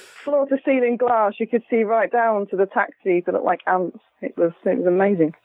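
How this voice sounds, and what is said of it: British accent. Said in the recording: “You have a much nicer accent than our Laura.”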